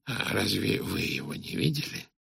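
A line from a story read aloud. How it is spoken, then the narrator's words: Whisper. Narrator (Russian): Он прошептал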